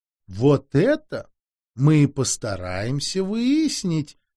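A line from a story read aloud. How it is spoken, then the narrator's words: Purring. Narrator (Russian): мурлыкал Бонавентура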